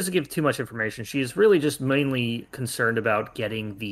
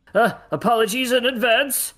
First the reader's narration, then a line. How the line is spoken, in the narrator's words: he shouts